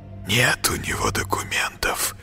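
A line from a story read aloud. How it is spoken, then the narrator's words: Sudden hiss. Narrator (Russian): прошипел вдруг Коля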